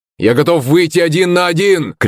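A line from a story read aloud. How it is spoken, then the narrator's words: Shout. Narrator (Russian): кричал Ираклий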